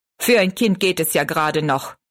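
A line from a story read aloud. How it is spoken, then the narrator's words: Angry. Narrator (German): meinte er zornig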